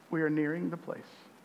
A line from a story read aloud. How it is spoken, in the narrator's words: the captain of Spafford's ships just kindly informed them